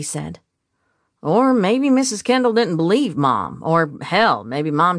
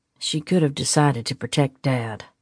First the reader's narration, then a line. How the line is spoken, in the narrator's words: Jameson said, his voice quiet